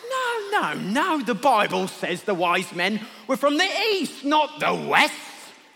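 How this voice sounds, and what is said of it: Put-on London accent. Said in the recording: “your London accent?”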